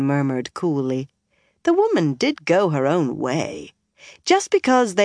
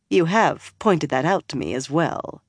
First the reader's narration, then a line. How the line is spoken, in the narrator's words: she added dryly